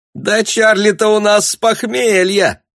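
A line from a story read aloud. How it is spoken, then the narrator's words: Shrill squeal, young woman. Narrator (Russian): взвизгнула одна из девиц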